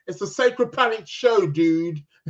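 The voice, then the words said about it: Put-on Californian Hawaiian accent. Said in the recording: “in that, Californian, Hawaiian, accent”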